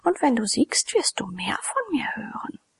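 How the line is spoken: Pretty woman whispering. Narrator (German): flüsterte ein hübsches Weib

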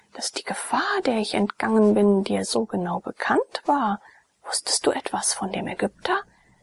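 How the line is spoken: Whispered. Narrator (German): flüsterte Jone

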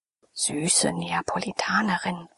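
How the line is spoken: Tender whisper. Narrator (German): flüsterte er zärtlich der Ione zu

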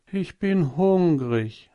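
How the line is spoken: Sighing. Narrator (German): sagte und seufzte

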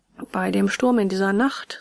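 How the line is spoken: Plain. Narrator (German): sagte der Delphin

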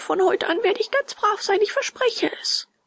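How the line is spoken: Sobbing. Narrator (German): schluchzte Bengele

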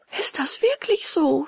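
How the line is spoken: Puppet sobbing. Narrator (German): schluchzte der Hampelmann

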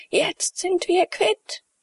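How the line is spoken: Hoarse hateful scream. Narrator (German): schrie mit heiserer, hasserfüllter Stimme

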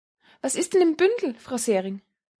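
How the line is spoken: Excited call. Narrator (German): Aufgeregt rief

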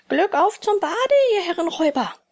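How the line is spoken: Shouted mockingly. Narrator (German): schrie ihnen höhnisch zu

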